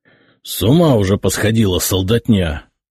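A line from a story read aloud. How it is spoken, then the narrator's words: Hissing. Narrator (Russian): прошипел дьяк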